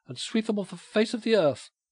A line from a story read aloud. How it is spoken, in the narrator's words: she cried